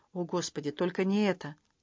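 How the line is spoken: Whisper. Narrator (Russian): Грейс прошептала

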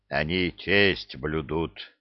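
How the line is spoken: Growling troll. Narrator (Russian): прорычал тролль

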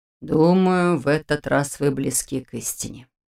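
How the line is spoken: Sigh. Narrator (Russian): вздохнул Нев

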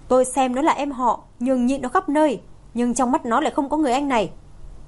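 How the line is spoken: Loud shout. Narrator (Vietnamese): Phương Tinh Nghị quát lớn

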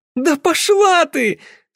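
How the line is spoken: Laughing flustered shout. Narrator (Russian): со смехом заорала пунцовая Мел

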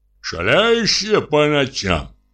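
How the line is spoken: Old householder grumbling. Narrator (Russian): ворчал хозяин-старовер

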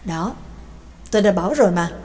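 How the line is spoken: Smiling mutter. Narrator (Vietnamese): Mạc Kinh mỉm cười, lẩm bẩm nói

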